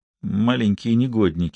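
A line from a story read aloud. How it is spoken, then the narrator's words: Muttered. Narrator (Russian): пробормотал он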